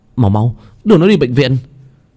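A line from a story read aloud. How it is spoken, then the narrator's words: Panicked shout. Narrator (Vietnamese): tiếng người la lên thất thanh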